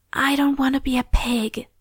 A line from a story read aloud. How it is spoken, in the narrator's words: Lori whispered